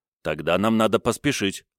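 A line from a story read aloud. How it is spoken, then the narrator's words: Plain. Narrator (Russian): сказал я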